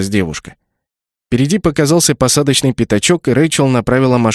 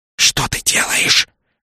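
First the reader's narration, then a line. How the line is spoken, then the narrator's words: Hissed. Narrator (Russian): прошипел Нак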